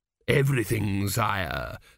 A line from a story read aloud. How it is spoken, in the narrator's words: said Dios smoothly